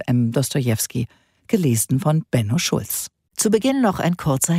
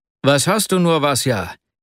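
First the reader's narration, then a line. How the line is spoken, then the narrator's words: Breathless exclamation. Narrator (German): rief er schließlich aus, als er ihn mit großer Mühe einholte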